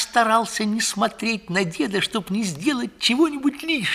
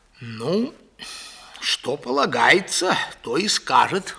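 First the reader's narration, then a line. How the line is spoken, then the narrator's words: Old man sighing. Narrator (Russian): вздохнул дед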